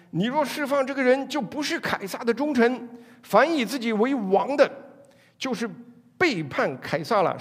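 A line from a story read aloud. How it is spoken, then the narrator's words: Crowd shouting. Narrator (Chinese): 民众 喊话说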